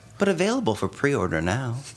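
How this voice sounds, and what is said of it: Gentle announcer voice. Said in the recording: “What happened to your voice? ... That was my announcer voice. ... My gentle announcer voice.”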